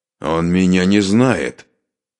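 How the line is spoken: Spiteful, through gritted teeth. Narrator (Russian): злобно процедил обладатель пистолета

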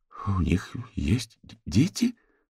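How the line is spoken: Stammering question. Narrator (Russian): заикаясь, спросила Фиона

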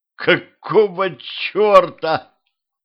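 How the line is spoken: Moaning. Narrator (Russian): простонал

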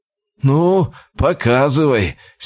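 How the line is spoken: Condescending snort. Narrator (Russian): снисходительно хмыкнул Николай

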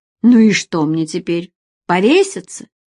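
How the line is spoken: Irritated bark. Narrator (Russian): рявкнул он раздраженно

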